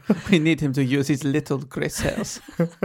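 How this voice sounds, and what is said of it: Put-on Belgian accent. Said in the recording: “I think that was a Belgian accent you just did.”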